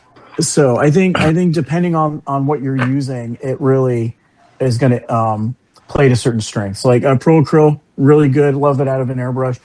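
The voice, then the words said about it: New York accent. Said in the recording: “this New York accent that I've had since I was like four”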